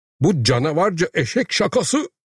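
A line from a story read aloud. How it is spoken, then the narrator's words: Headmaster crying out. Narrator (Turkish): diye haykırdı müdür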